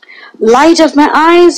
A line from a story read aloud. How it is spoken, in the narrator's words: cried